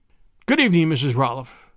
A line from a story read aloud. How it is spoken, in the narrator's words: he stammered